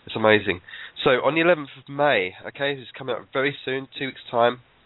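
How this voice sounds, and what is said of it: Voice with a cold. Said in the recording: “I've got a cold”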